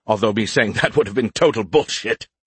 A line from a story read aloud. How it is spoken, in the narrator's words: he chuckled